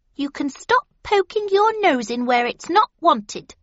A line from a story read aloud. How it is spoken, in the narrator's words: said the hedgehog haughtily